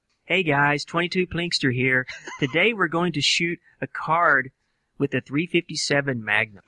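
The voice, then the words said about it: Imitates another person's voice. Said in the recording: “a very, very good impressionist ... Impersonator ... I impersonate a YouTube channel every day.”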